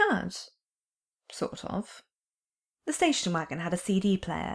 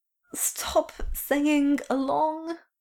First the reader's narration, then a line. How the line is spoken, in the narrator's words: pleaded after about an hour